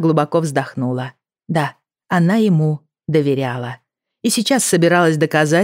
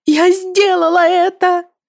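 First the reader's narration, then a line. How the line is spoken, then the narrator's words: Desperate shout. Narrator (Russian): закричала, цепляясь за него, как утопленник за спасательный круг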